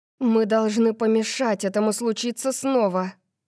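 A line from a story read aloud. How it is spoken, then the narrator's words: Moaning. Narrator (Russian): простонала я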